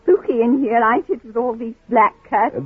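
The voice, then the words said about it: British Cockney accent. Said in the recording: “accent, British Cockney”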